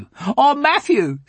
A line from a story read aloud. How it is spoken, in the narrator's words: said Mark, and they both giggled